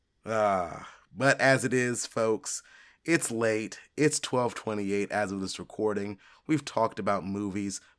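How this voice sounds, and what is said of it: Strained, nearly gone voice. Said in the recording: “My voice is going. It's almost gone.”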